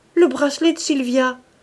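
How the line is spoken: Astonished exclamation. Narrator (French): s'écria-t-il avec étonnement

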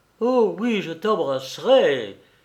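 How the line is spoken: Exclaiming. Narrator (French): s'écria Georges

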